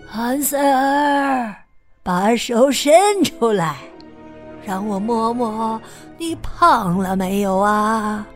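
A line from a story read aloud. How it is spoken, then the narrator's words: Calling out. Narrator (Chinese): 巫婆……叫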